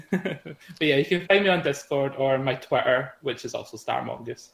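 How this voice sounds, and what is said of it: Slight Scottish accent. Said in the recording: “your Scottish accent join us as well ... Just a little bit”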